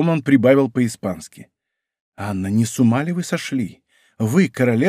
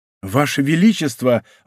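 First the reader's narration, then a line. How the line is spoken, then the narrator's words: Exclamation. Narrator (Russian): воскликнул кардинал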